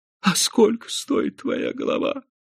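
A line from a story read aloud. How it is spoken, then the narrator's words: Quiet thin little voice. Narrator (Russian): тихим тонким голоском спросил Пак Чун Чанг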